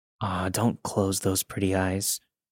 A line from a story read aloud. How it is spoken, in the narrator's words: He whispered into my ear